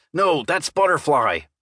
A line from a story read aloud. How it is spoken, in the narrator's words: I growled